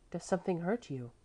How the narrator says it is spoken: she said quietly

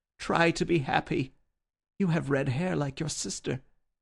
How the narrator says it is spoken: he cried

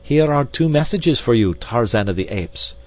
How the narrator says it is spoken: cried D'Arnot

